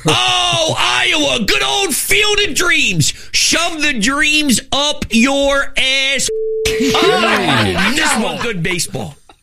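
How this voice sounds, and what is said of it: Very strong Philadelphia accent. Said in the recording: “It's the strongest Philly accent I think I've ever heard. ... that working class Philly”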